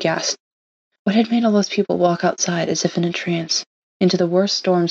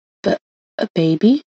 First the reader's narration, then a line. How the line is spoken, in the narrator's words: Five stuttered